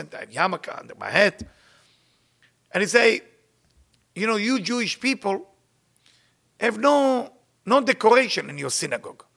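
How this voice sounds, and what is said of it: Israeli-accented English. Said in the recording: “I'm a little Israeli with my accent”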